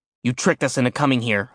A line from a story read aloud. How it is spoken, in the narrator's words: I growled